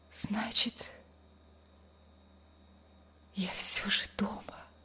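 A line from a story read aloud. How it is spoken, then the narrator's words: Weak whisper. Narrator (Russian): прошептала она слабым голосом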